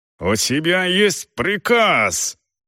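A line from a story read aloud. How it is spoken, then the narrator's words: Barking. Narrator (Russian): рявкнула Рэйчел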